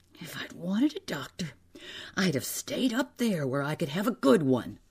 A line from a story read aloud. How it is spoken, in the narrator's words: in a wheezing, breathless voice, he said